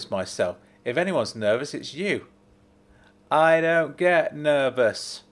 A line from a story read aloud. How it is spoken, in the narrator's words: she bellowed